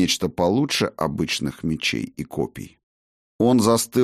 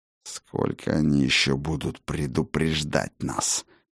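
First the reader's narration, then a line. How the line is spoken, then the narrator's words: Hissed. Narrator (Russian): прошипел он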